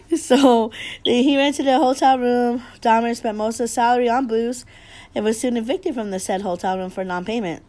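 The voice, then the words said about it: Rough, wrecked sick voice. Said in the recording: “I've been sick for the past 2 weeks. My voice is a wreck. I've been coughing like hella crazy”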